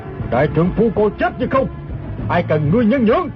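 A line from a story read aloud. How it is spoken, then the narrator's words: Shouting. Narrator (Vietnamese): Hắn bèn quát lên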